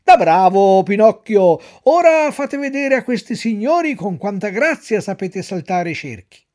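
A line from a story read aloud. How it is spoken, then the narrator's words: Shout. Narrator (Italian): il direttore gridò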